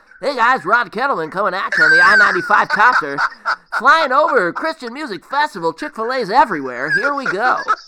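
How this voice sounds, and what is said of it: Rod Kettleman radio DJ impression. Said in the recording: “I have to do this voice. ... Rod Kettleman sounded like the epitome of radio personality ... do a Rod Kettleman impression.”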